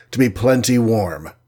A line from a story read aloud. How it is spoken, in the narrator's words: said Cap grimly